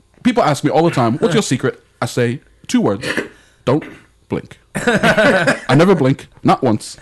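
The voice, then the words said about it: Michael Caine impression. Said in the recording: “I'm trying to do more Michael Caine.”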